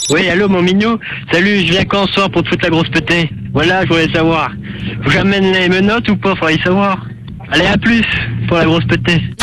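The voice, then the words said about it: Speaks with a noticeable accent. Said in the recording (French): “tu ne sens pas obligé d'amener ton accent”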